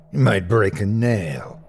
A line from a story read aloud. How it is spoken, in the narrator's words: Petcha growled